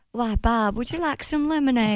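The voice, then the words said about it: Fake Southern accent. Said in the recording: “Say something in your southern accent ... I love the fake southern”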